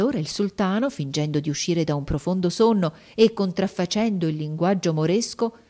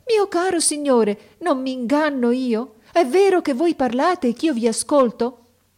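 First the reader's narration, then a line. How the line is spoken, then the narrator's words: Sorceress exclaiming. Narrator (Italian): la maga esclamò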